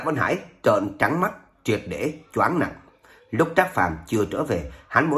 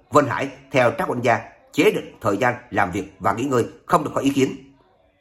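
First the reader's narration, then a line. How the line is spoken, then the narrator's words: Old man shouting loudly. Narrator (Vietnamese): Lão Vân Thường nghe vậy lập tức hét lớn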